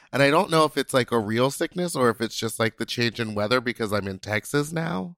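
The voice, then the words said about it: Congested, stuffy, messed-up voice. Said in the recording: “It's just up in my face and in my nose. It's like a sinus infection, possibly... my voice is all messed up”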